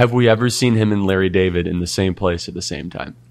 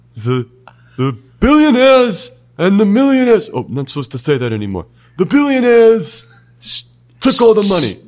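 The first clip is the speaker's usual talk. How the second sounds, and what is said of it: Imitates another person's voice. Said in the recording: “your Bernie impression”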